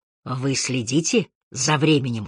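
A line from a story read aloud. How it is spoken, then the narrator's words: Whisper. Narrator (Russian): шепнул он Харри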